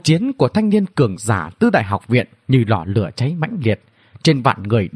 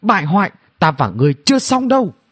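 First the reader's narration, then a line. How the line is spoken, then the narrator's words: Woman shouting loudly. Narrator (Vietnamese): nàng hét lớn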